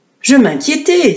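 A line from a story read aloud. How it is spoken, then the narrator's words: Exclaimed. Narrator (French): s'écria-t-elle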